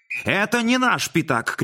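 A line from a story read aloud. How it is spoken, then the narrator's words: Shouting. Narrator (Russian): кричал Модест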